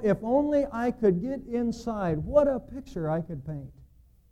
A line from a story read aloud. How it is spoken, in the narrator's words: cried Michelangelo